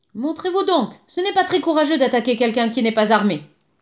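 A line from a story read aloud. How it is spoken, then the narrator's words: Shouting. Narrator (French): cria encore Hermès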